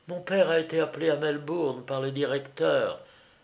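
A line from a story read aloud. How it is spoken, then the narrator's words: Muffled voice. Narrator (French): répondit-elle d'une voix sourde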